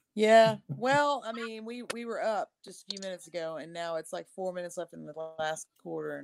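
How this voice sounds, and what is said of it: Texan accent. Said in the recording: “I'm from Texas. If you haven't been able to tell from my accent”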